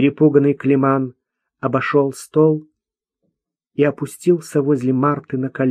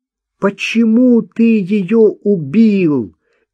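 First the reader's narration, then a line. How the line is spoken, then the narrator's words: Shout into crying. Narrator (Russian): выкрикнула Марта и заплакала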